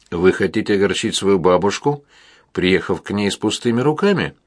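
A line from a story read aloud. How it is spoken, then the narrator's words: Calm inquiry. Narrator (Russian): спокойно осведомилась Амалия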